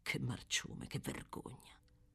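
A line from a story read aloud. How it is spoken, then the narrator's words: Furious, barely lowered voice. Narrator (Italian): continuava a ripetere furibondo, nemmeno tanto sottovoce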